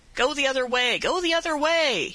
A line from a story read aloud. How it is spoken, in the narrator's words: he cried out